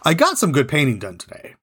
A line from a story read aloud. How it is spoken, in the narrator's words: He quickly added